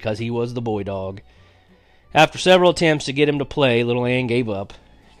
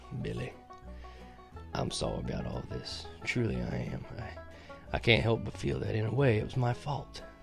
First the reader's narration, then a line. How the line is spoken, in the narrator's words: In a low voice that quivered as he talked, he said